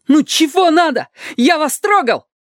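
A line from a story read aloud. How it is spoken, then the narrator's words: Shout. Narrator (Russian): крикнул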